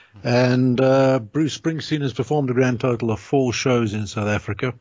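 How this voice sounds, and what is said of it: South African accent. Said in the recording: “I live in Johannesburg in South Africa ... You could probably tell by the accent.”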